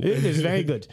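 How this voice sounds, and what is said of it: Put-on Indian accent. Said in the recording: “That's how I usually do the Indian accent ... keep your tongue stuck to the top of your roof if like you're chewing peanut butter”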